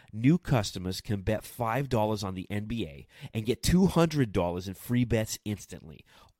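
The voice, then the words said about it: Put-on Philly accent. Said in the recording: “that's definitely a Philly accent”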